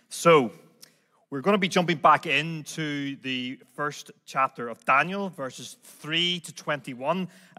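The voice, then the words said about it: Unfamiliar non-local accent. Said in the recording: “this weird accent that you're hearing at the front of the room”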